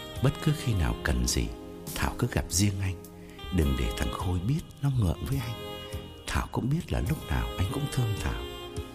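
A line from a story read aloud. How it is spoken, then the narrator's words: Whispering. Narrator (Vietnamese): Khái ... thì thầm bên tai Thảo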